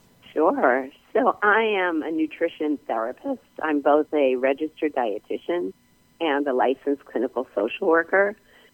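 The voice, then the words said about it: Slightly hoarse, strained voice. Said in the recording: “I have a little laryngitis”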